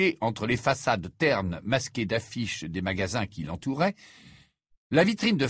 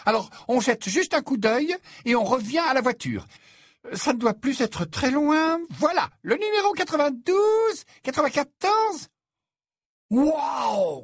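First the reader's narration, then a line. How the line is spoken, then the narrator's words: Exclaiming. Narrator (French): s'exclama Ron en se figeant sur place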